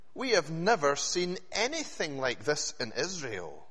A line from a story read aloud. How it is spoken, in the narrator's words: they exclaimed